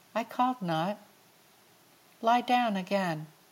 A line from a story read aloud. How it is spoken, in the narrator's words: he answered quietly